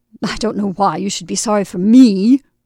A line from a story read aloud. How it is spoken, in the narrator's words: she muttered